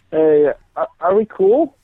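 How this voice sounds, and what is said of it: Sad-sounding voice. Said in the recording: “You sound so sad.”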